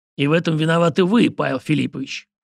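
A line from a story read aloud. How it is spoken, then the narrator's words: Snorting. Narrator (Russian): фыркнул Кустодий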